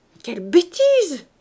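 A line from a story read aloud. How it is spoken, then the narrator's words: Exclaiming. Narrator (French): s'écria la belle-mère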